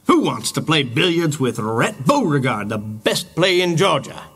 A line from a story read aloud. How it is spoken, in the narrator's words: He shouted suddenly